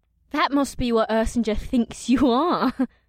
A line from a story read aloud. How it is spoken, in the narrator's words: the horned woman giggled